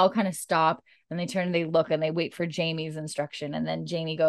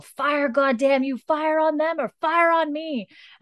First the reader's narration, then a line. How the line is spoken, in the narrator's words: Tryon's, like, yelling at them all